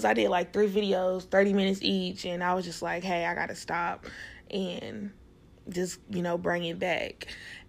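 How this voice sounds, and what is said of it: Southern US Tennessee country accent. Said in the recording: “I'm super country and this Tennessee accent, it can be annoying”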